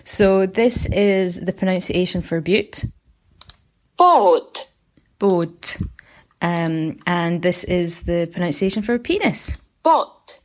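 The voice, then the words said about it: Scottish Aberdonian accent. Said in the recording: “my Aberdonian brogue by way of numerous years living on the west coast of Scotland, plus a few years of having to tone down my accent whilst living in London”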